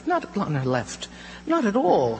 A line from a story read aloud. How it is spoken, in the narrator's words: exclaimed